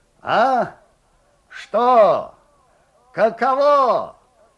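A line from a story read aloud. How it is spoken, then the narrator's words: Muffled shout from darkness. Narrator (Russian): глухо кричал Лукьян Степанов из темноты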